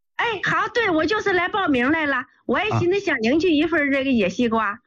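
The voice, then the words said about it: Northeastern Chinese accent. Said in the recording (Chinese): “口音是北方的，东北的吧”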